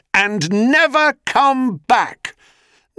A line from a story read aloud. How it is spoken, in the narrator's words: As she ran, he called out after her